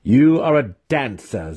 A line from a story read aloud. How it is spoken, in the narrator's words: Zack shot back in a derisive tone